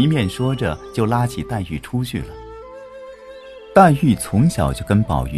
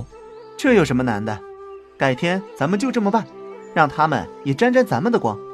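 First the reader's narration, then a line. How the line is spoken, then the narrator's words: Smiling. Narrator (Chinese): 宝玉笑笑说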